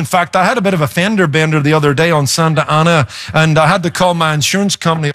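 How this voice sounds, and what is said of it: Noticeable non-American accent. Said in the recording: “you know I've got an accent, right? I'm losing it a little... I recognize that accent... I've been taken from everything from a German to a South African to an Australian”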